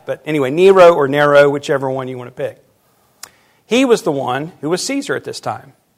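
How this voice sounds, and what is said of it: Southern American accent. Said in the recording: “I feel like I'm speaking with a southern accent, which I have”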